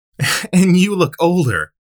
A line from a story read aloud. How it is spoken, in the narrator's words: laughed